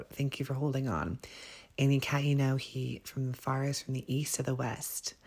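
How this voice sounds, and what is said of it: Hoarse, froggy throat. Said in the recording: “I'm tongue twisted today, and I have a frog in my throat.”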